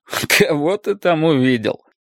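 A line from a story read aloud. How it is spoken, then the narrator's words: Laughing question. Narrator (Russian): спросил, смеясь, Беннет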